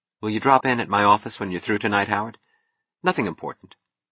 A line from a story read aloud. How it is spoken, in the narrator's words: Keating to say softly